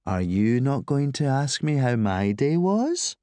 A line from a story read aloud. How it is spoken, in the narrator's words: She drawled